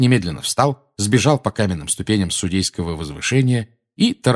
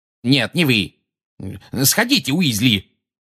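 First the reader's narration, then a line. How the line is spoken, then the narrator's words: Gruff bark. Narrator (Russian): гаркнул Фадж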